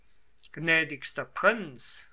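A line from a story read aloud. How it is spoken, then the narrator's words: Deeply moved cry. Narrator (German): rief Civitella heftig bewegt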